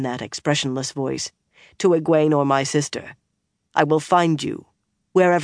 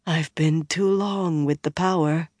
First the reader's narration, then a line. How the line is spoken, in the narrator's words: she said, a trifle unsteadily